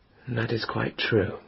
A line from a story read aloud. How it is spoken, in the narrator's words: he said sadly